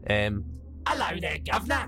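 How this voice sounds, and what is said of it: Put-on Cockney accent. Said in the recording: “shout in a faint and strange accent ... Cockney robots”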